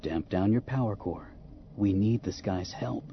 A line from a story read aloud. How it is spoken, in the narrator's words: said more gently